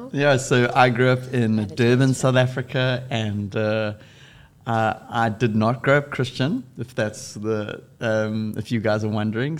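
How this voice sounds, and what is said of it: South African accent. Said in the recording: “we grew up in South Africa. That's why our accent is a little funny.”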